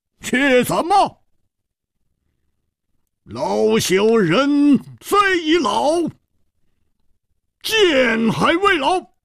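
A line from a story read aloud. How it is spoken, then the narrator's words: Stern, sharp. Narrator (Chinese): 火一番厉声说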